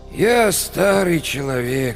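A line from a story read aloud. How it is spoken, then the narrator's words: Sad. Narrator (Russian): сказал он печально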